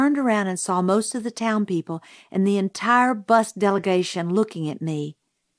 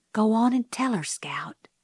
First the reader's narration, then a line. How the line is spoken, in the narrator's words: someone whispered